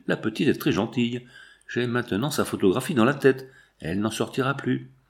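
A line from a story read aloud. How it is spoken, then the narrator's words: Murmured. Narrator (French): murmura-t-il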